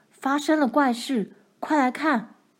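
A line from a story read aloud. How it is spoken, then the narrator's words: Shout. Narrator (Chinese): 他喊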